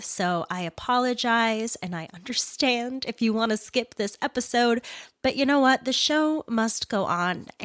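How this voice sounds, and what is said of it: Congested, stuffy-nosed voice. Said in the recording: “If you can tell by the sound of my voice in that intro, I'm sick. I have a wee bit of a cold, and I sound congested”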